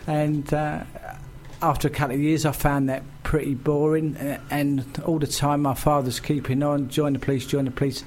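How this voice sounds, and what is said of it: Cockney accent. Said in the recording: “someone with a Cockney accent”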